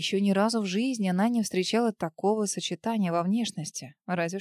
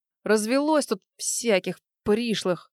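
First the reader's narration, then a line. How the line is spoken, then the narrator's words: Annoyed growl. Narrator (Russian): с досадой рыкнул Алик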